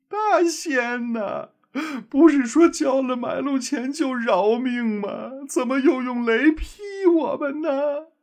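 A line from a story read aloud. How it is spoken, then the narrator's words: Weeping and sobbing. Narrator (Chinese): 二妖搂抱在一起，哭哭啼啼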